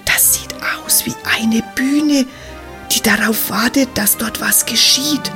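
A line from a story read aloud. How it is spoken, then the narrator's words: Whispered. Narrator (German): flüstert Jola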